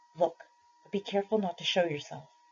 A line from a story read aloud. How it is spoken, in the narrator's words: whispered